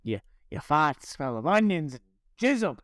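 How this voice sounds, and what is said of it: Put-on Boston accent. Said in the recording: “a deadite that spoke in a Boston accent”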